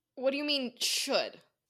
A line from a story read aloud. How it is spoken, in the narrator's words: Lucy asked sternly